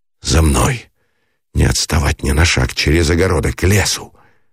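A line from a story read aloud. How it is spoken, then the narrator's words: Irritated command. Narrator (Russian): выговорил он, раздраженный ее шепотом, ее плачем без слез, в котором было обреченное бессилие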